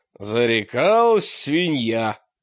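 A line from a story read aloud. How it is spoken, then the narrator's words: Snorting. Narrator (Russian): хмыкнул Мрак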